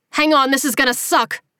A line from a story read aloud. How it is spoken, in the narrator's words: he yelled